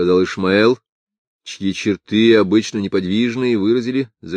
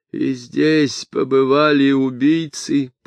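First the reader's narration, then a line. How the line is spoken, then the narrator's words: Moan. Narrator (Russian): простонал Эстер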